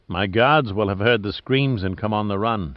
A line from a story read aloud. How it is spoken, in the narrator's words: he said calmly